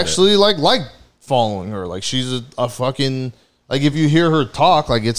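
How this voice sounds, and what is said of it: Usual voice. Nothing is said of it.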